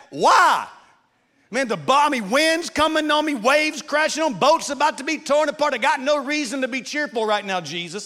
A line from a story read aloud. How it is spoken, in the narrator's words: I'm yelling back